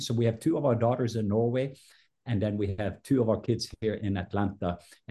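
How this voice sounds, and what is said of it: Norwegian accent. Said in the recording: “your accent, but you've said you're a Viking Norwegian”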